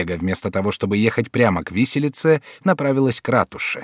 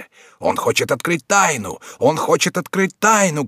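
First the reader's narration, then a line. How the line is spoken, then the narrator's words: Crowd shouting. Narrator (Russian): кричали со всех сторон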